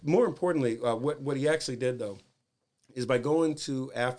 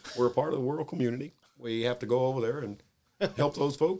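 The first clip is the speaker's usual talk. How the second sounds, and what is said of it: Barack Obama impression. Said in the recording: “I almost did my Obama impersonation ... That's pretty good.”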